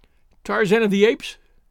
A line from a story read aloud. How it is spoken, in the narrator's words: she cried